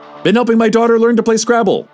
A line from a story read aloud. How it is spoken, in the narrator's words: Al blurted without prompting